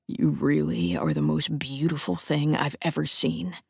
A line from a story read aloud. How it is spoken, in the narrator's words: he murmurs